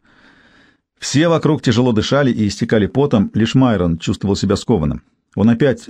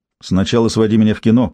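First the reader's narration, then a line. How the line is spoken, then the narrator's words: Plain. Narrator (Russian): ответил Майрон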